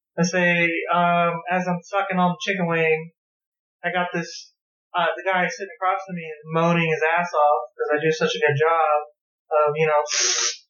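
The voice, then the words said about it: Sugary, sweet young woman's voice. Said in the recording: “I got this sugary, pumpkin spice white girl voice that's... I'm stuck with it forever.”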